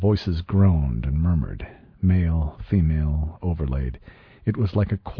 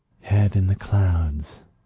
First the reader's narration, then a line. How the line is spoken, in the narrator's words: she breathed